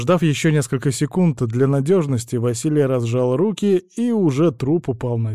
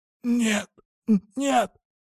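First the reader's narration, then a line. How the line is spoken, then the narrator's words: Failed shout, faint whisper. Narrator (Russian): попытался выкрикнуть в ответ мужик, но раздался только тихий шепот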